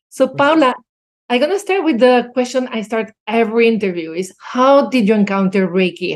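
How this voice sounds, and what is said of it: Spanish accent speaking English. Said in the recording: “we're two Spanish-speaking people together ... So all of you, bear with that accent.”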